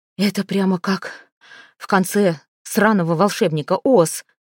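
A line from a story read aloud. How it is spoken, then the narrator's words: Tearful exhale. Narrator (Russian): выдохнула Коди, смаргивая слезы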